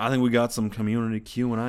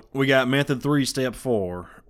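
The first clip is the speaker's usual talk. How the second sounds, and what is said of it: Put-on Southern accent. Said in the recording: “the best Southern accent I possibly can”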